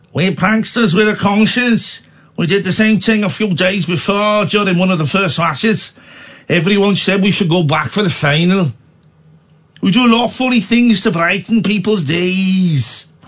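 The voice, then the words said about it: Put-on Northern English accent. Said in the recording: “What's his accent now? ... Northern.”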